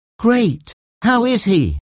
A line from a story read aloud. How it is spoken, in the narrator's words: said Mark, nervously adding